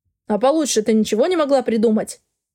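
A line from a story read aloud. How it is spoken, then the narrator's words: Grumbling. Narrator (Russian): проворчал он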